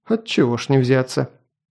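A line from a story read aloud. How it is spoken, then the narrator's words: Amused snort. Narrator (Russian): Хмыкнул Данак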